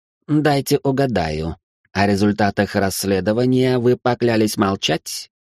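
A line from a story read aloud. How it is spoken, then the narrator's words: Strange voice. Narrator (Russian): странным голосом продолжил Гринривер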